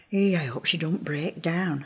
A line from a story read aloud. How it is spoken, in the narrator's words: I whispered to Mrs